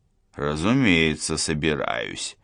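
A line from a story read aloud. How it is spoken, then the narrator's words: Pensive mutter. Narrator (Russian): задумчиво пробормотал Гуров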